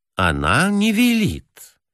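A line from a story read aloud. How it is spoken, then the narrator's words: Soft. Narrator (Russian): мягко сказал черноволосый директор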